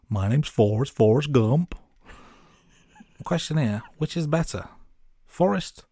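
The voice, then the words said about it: Forrest Gump accent impression. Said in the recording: “I'll do the accent”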